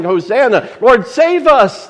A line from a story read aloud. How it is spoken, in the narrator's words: they cried out